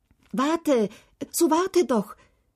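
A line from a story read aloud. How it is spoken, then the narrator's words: King calling after. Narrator (German): rief … der König nach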